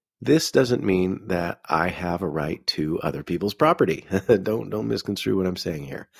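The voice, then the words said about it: Congested, sick-sounding voice. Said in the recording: “I'm sick. You can probably hear it in my voice. I'm fighting like a sinus thing.”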